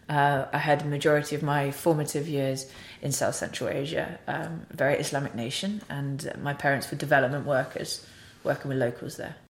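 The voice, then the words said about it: British accent. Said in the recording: “the accent is very British that you can hear”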